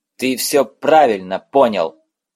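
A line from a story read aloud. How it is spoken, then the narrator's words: Barked. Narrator (Russian): рявкнул он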